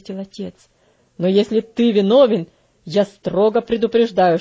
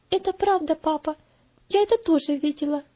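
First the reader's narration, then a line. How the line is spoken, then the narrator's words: Timid, embarrassed girl. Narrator (Russian): ответила девочка, слегка покраснев и робко озираясь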